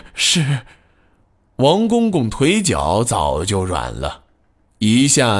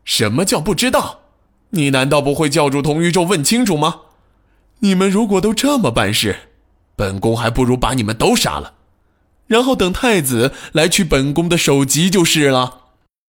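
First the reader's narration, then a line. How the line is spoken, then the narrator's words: Loud angry scolding. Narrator (Chinese): 孙皇后的脸色突然又阴沉了下去，她扯着嗓子大声骂道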